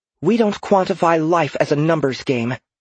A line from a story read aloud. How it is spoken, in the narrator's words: Kaelin snapped